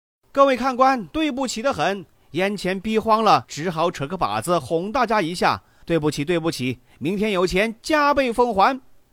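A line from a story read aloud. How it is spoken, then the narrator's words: Loud apologetic announcement. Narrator (Chinese): 那个男子突然停止口中的叨念，远远的望着等他钻夜壶的人圈子，双手抱拳致意，大声的说道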